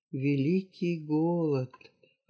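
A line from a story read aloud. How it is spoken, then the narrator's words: Whispered. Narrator (Russian): прошептал Манко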